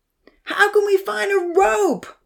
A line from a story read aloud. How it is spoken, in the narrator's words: Odin yelled